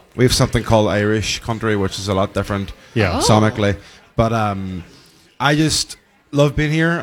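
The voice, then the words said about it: A likeable accent. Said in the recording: “God, I love his accent. So good.”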